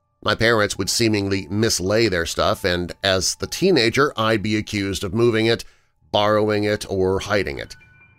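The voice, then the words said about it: BBC British accent. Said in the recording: “the BBC British accent”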